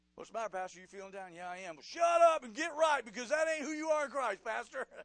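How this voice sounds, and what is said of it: Shouting preacher. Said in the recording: “I'm shouting. I love to shout. I have to shout.”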